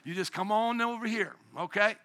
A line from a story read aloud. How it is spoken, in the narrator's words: Peter cries out